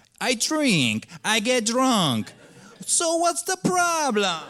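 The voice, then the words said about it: Put-on Eastern European accent, Tommy Wiseau-like. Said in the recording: “this weird Eastern European accent ... Tommy Wiseau's ... That's kind of the accent I was using right now.”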